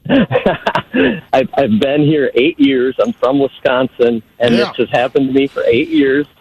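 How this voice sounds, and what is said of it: Northern US accent. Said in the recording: “my northern accent”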